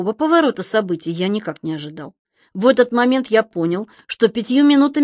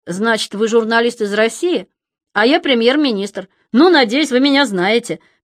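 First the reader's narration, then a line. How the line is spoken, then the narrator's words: Loud laughter. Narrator (Russian): Берлускони захохотал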